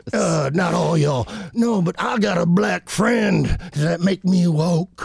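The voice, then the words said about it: Put-on Southern American accent. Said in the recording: “Why do you have a southern accent ... all the time?”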